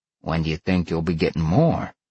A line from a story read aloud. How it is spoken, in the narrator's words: Sal asked calmly